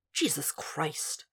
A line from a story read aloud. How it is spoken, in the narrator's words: Zeller muttered